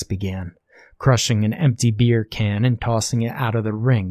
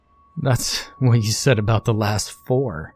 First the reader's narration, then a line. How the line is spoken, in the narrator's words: Brian laughed